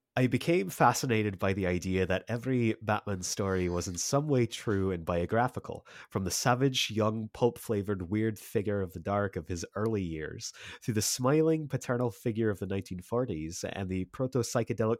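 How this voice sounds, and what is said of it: Scottish Grant Morrison impression. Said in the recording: “do your best Morrison impression ... Scottish.”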